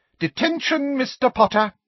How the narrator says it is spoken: said Professor Umbridge triumphantly

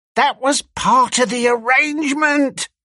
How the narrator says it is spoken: cried Squealer

